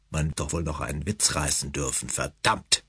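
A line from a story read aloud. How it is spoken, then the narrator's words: Offended mutter. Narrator (German): murmelte er schließlich beleidigt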